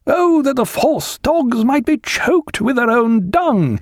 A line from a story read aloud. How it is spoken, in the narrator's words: A man of the middling kind, of some education, he cried out